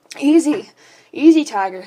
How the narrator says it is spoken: he moaned

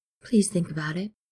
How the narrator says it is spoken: Steed says softly

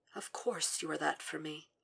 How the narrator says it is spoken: murmurs between their mouths

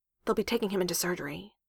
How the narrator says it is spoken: Coulson murmured

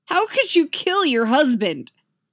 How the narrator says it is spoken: Luke shouts, but it's not really a question

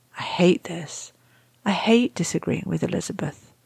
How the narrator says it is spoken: Quietly, so quiet that Rodney almost misses it, Shepherd says

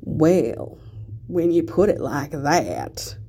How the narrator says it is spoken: Ted drawls, voice rough

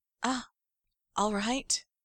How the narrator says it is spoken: Charles looks a little stunned and murmurs

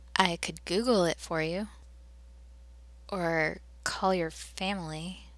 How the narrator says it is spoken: John offered hesitantly

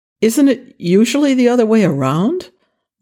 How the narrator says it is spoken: Jack asked cheerfully

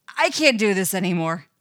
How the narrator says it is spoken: he blurts out

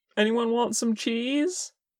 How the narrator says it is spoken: Porsche asked desperately

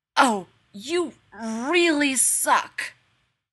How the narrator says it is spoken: croaks

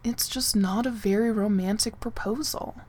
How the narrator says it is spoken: John said mournfully

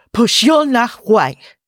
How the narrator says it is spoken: he snaps

